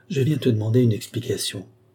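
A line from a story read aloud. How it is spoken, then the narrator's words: Choked voice. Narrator (French): repris-je d'une voix étranglée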